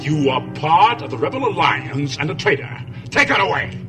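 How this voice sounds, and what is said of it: Darth Vader voice, mid-Atlantic accent. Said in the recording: “elements of the mid-Atlantic accent in the voice James Earl Jones gave to Darth Vader”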